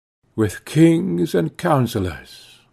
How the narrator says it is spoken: murmured I

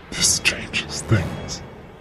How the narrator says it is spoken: he whispered

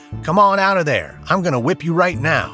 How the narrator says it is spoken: shouting at him

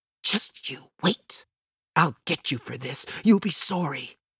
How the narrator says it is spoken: Yvette mutters

